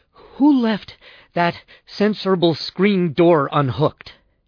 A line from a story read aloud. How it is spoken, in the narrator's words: Bell said between gasps